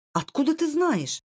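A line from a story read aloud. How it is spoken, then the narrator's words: Astonished exclamation. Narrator (Russian): воскликнул пораженный Лу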